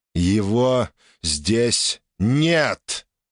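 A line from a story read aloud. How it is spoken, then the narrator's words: Deliberately loud. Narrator (Russian): нарочито громко произнес лидер пруссов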